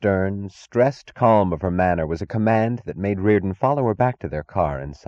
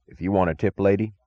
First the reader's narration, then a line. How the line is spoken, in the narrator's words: said Mayor Bascom